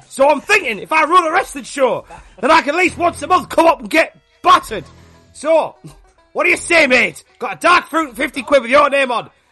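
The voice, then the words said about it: Put-on Geordie accent. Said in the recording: “got a better Geordie accent than me and Bowers”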